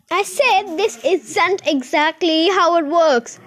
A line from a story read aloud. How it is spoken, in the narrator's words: shouted Mighty